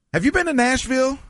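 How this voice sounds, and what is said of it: Unusually high-pitched voice. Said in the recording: “Why is my voice so high? ... It's a high voice.”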